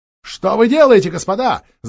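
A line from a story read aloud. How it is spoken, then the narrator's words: Shouting. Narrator (Russian): закричал он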